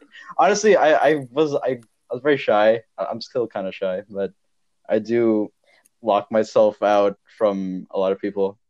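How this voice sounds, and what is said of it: Indian accent. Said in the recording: “I had like a really strong Indian accent ... I still have an accent though”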